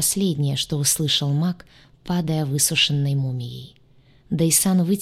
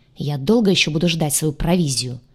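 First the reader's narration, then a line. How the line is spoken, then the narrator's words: Furious, impatient bark. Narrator (Russian): рявкнул Дайсан, яростно сверкнув глазами, теряя терпение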